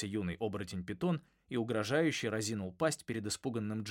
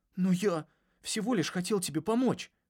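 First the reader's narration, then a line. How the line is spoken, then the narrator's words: Timid babbling. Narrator (Russian): пролепетал Джаспер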